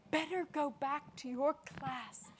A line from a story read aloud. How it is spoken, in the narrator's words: she whispered